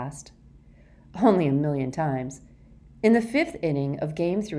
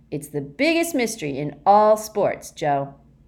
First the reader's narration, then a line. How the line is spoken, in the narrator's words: he said excitedly